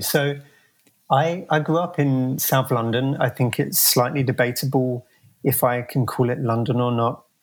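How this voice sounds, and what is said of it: South London British accent. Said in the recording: “I don't think that accent is a San Francisco accent.”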